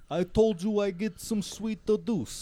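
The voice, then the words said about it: Jersey Shore style accent. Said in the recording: “are you like Jersey Shore right now?... always goes to these random accents now.”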